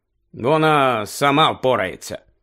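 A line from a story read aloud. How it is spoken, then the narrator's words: Hesitant mutter. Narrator (Ukrainian): Рон завагався і буркнув Гаррі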